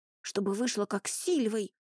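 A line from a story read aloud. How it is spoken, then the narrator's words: Whispered reply. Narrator (Russian): также шепотом ответил ему Рони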